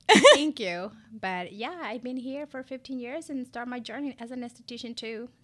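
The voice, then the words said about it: Ecuadorian Spanish-accented English. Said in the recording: “born and raised Ecuadorian ... excuse my accent ... love your accent”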